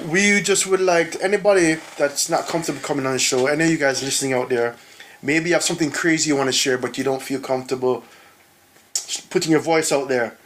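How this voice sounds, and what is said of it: Speaks with a noticeable accent. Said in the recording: “It's good in your accent.”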